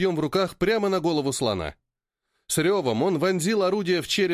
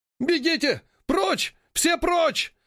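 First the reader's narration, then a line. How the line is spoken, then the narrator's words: Crowd shrieking. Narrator (Russian): завизжали островитяне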